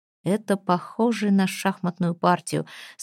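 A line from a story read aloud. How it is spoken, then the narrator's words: Through gritted teeth. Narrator (Russian): сказал он Пламтри сквозь зубы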